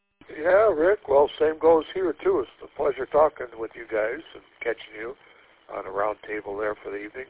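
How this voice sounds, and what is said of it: Deep, congested nasal voice. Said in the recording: “clear up my sinuses here. They're plugging up, talking, vibrating deep voice in my sinus cavity”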